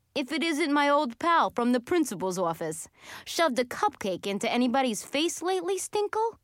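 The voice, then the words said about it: New York accent character voice. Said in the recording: “I'd recognize that New York accent”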